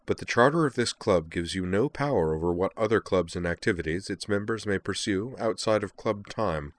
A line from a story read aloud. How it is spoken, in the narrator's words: said in a calm voice